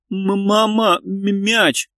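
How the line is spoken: Stuttering young child. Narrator (Russian): Шестилетний Саша заикаясь, твердил

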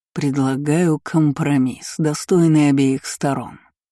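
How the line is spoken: Vibrating velvety voice. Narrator (Russian): произнес он своим вибрирующим бархатным голосом

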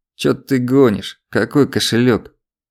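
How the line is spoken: Nasal twang. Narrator (Russian): прогнусавила тень

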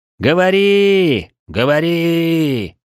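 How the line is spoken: Hopeful crowd shouting. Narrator (Russian): с надеждой кричал народ

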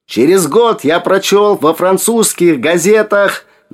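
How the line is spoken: Straining shout. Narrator (Russian): Надсаживаясь, выкрикнули

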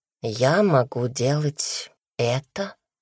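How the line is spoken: Whisper. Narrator (Russian): прошептал

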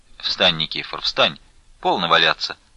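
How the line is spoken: Stern. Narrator (Russian): строго сказал ему Потап Максимыч

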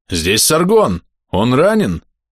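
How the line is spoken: Muffled voice. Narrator (Russian): Глухо прозвучал смутно знакомый голос

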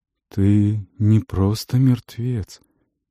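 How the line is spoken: Muffled old voice, coughing. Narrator (Russian): сказал Есир глухим старческим голосом и закашлялся

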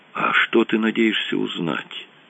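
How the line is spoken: Whispered. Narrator (Russian): прошептал Рэндалл Синти

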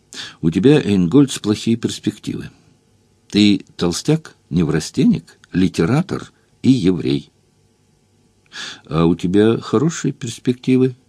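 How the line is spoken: Gentle inquiry. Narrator (Russian): Мягко поинтересовался он

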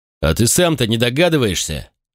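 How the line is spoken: Growled. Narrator (Russian): прорычал майор

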